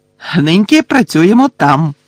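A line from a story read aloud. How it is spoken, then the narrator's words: Cheerful announcement. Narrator (Ukrainian): весело повідомив Гегрід учням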